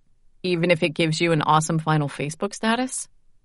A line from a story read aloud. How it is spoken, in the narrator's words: I laughed